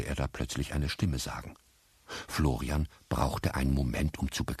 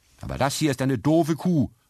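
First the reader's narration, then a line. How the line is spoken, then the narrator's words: Calling out. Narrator (German): rief Florian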